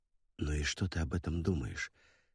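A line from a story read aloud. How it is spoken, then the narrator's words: Low-voiced question. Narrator (Russian): спросил вполголоса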